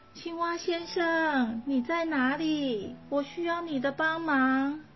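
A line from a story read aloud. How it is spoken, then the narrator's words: Frightened loud call. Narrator (Chinese): 但他实在很害怕，就大声叫着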